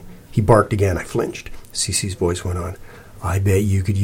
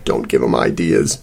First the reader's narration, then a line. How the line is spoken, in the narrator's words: Sal croaked